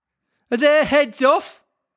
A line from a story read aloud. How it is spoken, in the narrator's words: shouted the Queen